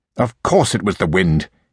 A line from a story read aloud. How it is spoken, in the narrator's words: he muttered angrily